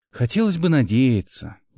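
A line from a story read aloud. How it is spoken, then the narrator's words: Sigh. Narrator (Russian): вздохнул Гил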